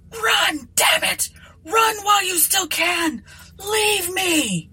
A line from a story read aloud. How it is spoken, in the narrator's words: William shrieked